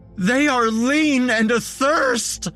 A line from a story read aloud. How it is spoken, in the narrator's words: he shrieked